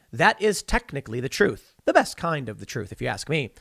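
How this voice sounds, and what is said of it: Sarcastic tone. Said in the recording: “I'm saying that sarcastically”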